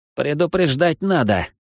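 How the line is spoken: Grumbling. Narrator (Russian): пробурчал Плинто

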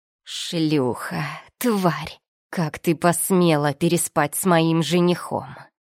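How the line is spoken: Woman's growl. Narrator (Russian): Зарычала шатенка

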